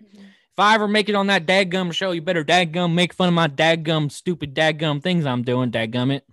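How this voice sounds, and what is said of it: Imitates another person's voice, country accent. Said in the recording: “my French impression, it's just dadgum mixed with the country accent”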